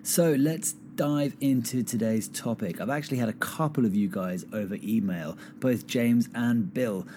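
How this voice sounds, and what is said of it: Slightly croaky voice. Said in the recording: “really, really messes with your fingers and with your voice. So that's why I sound a little croaky today.”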